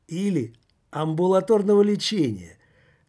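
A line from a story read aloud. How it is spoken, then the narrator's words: Chuckling. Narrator (Russian): хохотнул все в прошлом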